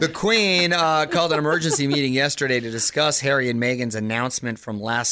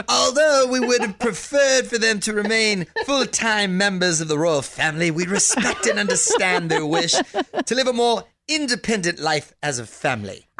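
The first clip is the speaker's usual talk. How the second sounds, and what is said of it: Impression of the Queen. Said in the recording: “do it in your Queen impression ... did I nail that though or what? ... Not really.”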